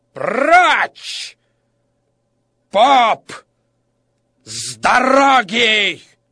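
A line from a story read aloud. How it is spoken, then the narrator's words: Angry shout. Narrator (Russian): от злости, и он закричал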